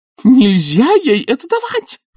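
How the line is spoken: Shriek. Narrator (Russian): взвизгнула она

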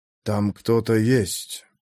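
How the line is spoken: Quiet man. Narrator (Russian): произнес он тихо

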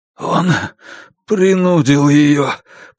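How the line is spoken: Hoarse, strange voice. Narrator (Russian): прохрипел Бруно не своим голосом

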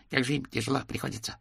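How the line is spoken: Rapid chatter. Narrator (Russian): затараторил он

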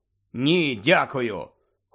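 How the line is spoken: Cold refusal. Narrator (Ukrainian): холодно відмовився Гаррі

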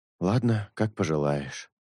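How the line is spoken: Sigh. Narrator (Russian): вздохнул Шелк

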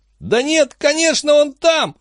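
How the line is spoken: Loud sobbing. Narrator (Russian): Хилли принялся громко всхлипывать

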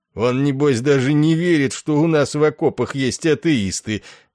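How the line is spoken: Mocking. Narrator (Russian): насмешливо сказал полковник

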